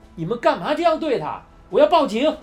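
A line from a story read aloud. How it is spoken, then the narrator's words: Shouting. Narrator (Chinese): 波利喊道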